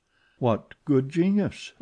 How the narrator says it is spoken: exclaimed poor Raoul

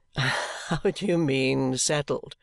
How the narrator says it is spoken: returned Richard with his gay laugh

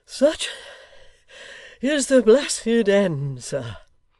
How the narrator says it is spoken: cried the panting locksmith

